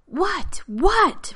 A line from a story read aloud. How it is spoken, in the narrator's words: Rodney screamed